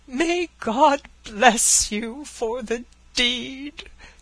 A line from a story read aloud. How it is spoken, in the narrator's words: he cried